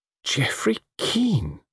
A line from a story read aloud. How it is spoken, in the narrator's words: murmured Diana